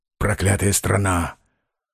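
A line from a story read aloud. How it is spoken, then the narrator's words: Muttering. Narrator (Russian): бормотал Корейка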